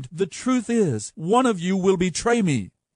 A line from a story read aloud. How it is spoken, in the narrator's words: Now Jesus was in great anguish of spirit, and he exclaimed